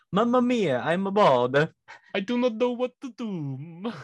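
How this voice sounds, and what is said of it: Put-on Italian accent. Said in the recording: “an Italian accent would make it awesome”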